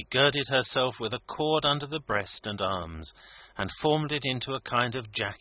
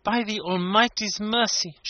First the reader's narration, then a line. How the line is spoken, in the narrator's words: she exclaimed